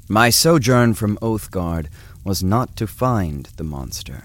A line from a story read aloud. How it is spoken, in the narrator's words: said Eglos